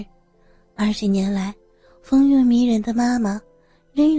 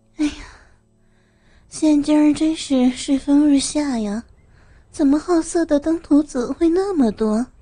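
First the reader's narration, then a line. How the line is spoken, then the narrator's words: Amused father. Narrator (Chinese): 爸爸好像笑了笑，说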